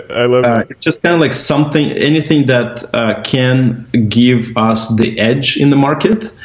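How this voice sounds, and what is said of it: Russian accent. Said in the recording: “my Russian accent would be like uh, more prominent the more I drink.”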